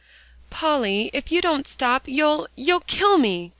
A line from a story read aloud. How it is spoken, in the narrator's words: gasped Alexia